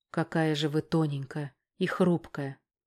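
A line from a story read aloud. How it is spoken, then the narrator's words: Breathy exhale. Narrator (Russian): выдохнул Поляков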